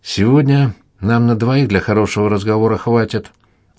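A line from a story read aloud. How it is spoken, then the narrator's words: Calm. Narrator (Russian): уже спокойно сказал летчик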